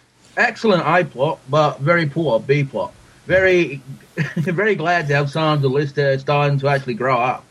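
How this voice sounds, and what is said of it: Attempted Australian accent. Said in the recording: “I'm going to try and do it in an Australian accent.”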